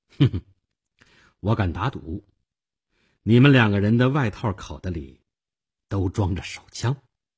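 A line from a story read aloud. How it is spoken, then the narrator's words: Faint, calm smile. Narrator (Chinese): 我淡淡的一笑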